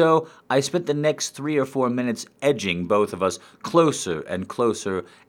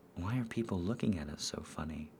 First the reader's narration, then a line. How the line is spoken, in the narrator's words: I whispered to Mambo